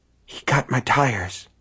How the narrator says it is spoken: Hugh whispered

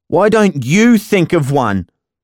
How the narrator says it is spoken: I spat

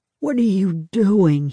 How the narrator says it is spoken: Hugh moaned

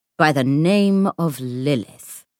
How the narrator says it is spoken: he drawled

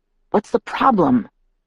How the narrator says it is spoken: Emmett murmured to Edward

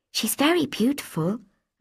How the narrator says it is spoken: I whispered

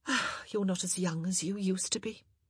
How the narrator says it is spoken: she said with a sigh

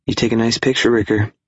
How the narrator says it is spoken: she sighed

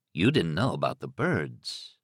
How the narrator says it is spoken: Thad said softly

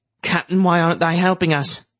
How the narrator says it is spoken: Cap asked in a worried voice

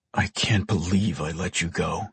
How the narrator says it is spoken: he muttered

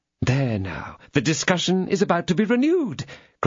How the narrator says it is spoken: cried Madame Bonacieux, with a half-smile, which was not altogether exempt from impatience

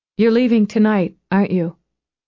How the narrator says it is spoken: Even to her own ears, her voice sounded dull, wooden

